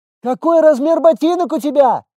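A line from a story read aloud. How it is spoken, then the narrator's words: Yelling from another room. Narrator (Russian): заорала Маринка из комнаты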